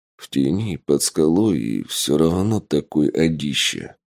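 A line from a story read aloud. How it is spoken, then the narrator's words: Grumbling mutter. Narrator (Russian): буркнул Тапок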